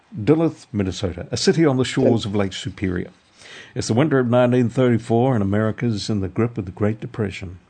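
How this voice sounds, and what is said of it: Reading in a put-on accent. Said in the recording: “I won't do the rest in an accent.”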